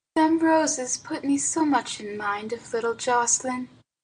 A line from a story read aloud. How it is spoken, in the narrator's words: she said softly